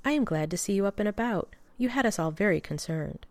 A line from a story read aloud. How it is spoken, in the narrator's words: she said, smiling gently